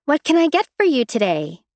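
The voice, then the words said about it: Fluffy waitress voice. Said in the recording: “in my best fluffy waitress voice”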